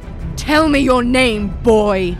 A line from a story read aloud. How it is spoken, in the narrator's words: Maleficent roared